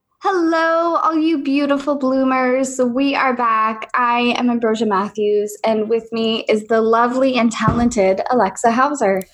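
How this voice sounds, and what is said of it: Smooth radio announcer voice. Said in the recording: “That was my radio voice. ... Smooth jazz.”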